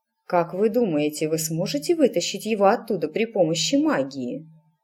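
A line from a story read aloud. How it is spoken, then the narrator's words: Plain. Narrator (Russian): спросила матушка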